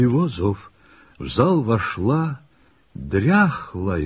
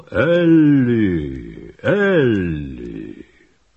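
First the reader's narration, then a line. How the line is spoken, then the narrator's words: Loud call. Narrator (Russian): громко позвал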